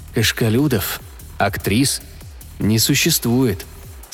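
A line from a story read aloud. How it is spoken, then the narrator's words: Calm statement. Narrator (Russian): спокойно сообщил Пол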